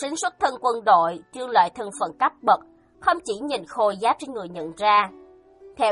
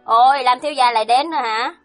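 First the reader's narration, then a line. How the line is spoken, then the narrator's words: Mocking, sneering. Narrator (Vietnamese): Mộ Sính trên mặt lộ ra châm chọc cười, nói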